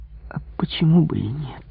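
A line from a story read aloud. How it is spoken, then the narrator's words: Quiet, hidden fear. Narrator (Russian): спросила тихим голосом с затаенным испугом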